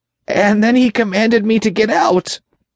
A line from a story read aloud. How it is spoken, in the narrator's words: the demon replied, his voice breathless with fear